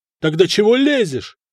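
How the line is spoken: Louder yelling. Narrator (Russian): еще громче заорал Надир

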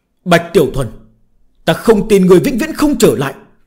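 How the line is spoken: Furious roar. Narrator (Vietnamese): Tiếng Tà Hoàng gầm thét giận dữ

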